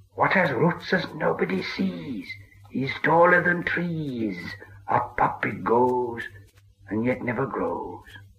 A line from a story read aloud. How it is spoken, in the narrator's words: Gollum hissed